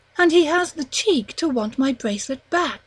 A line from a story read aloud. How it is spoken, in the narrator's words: exclaimed Pauline